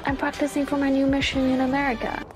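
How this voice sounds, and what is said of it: Put-on American accent. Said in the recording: “Why the American accent”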